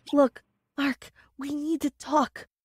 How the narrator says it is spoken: I whispered as I noticed the curious glances from my coworkers

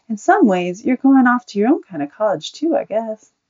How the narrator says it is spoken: said kindly

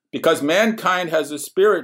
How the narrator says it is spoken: shouted one of the partygoers, celebrating the end of everything

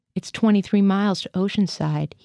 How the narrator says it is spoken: he said

